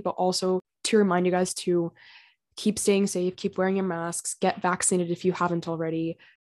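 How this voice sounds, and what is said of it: Slightly raspy voice. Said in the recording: “my voice sounds a little bit raspy”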